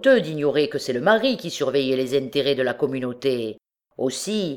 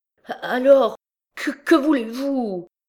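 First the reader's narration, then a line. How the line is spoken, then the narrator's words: Stammering. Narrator (French): balbutia M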